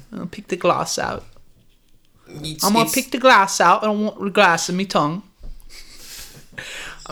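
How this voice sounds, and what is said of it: Character voice with shifting accent. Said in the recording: “My accent keeps changing because I got so much glass in my gums.”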